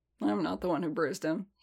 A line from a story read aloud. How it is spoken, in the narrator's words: he muttered